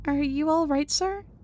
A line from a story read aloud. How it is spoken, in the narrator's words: I meekly but sincerely ask